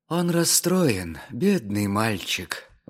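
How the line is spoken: Sighing. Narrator (Russian): вздохнула Устинья Яковлевна

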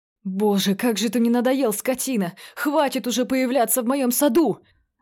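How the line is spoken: Shouting out. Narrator (Russian): выкрикнул Джерри

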